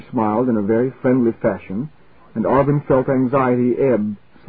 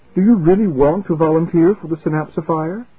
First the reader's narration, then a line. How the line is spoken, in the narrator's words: eagerly